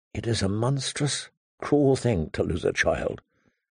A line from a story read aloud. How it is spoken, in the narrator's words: she whispered softly, more to herself than to her father